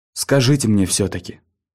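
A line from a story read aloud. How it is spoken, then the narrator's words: Mumbled. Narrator (Russian): пробормотал Фред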